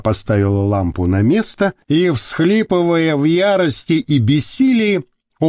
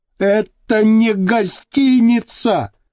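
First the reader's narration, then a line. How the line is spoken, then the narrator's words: Shouted. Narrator (Russian): крикнула Орлин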